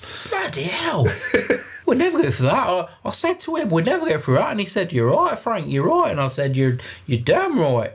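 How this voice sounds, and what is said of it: Put-on London English accent. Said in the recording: “your English accent is so weird ... It's a London accent”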